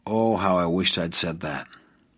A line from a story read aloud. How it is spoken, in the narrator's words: sighed